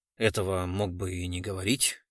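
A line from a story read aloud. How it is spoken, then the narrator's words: Gloomy. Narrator (Russian): мрачно отозвался Глузкий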